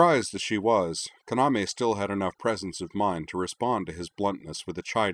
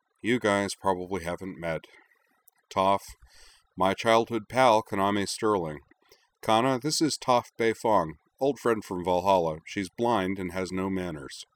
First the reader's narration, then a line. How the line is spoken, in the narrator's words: Corwin gave a long, suffering sigh and said